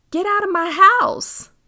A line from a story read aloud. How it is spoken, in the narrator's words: yelled